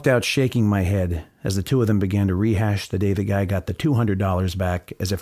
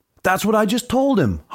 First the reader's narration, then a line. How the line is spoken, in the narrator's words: hollered my original clerk from over at the rotating earbud display